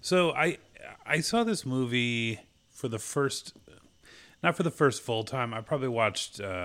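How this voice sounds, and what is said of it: Usual voice. Nothing is said of it.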